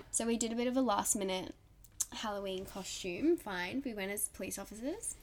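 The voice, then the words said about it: Slightly worn, unwell-sounding voice. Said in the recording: “I was actually really run down last week, and you probably can still hear it in my voice a little bit”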